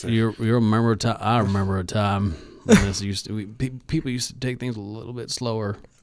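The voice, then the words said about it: Bad Sam Elliott impression. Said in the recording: “like a Sam Elliott commercial ... This is a bad impression ... Sam Elliott. Nobody can do Sam Elliott ... You can hear his mustache”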